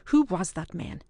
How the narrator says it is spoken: demanded Ewan instantly, and all the more fiercely, because he winced to hear that date on Archie's lips

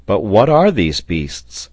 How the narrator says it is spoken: was asked a second time

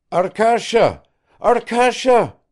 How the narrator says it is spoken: cried Kirsanov

